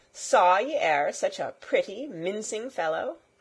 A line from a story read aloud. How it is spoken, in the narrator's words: quoth Robin Hood, laughing